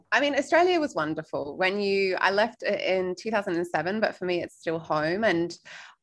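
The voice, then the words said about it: Mixed Australian and British accent. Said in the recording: “your accent is all over. Yeah, it's not 100% Australian because I spent, you know, the first, let's call it the formative years in the UK”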